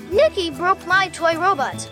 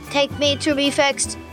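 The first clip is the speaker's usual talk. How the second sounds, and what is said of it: Robot voice. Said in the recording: “That's a really good robot voice”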